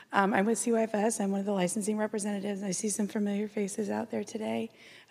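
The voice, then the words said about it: Slightly hoarse voice. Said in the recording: “A little hoarse, got a cold, getting over one.”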